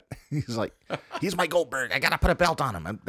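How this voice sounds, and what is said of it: Bad Tony Khan impression. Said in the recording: “I do a horrible Tony Khan impression”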